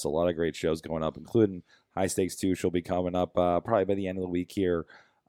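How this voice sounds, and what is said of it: Weird, strained low-energy voice. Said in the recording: “I should sound way more excited about, but I can't possibly physically do that right now... my weird voice all night”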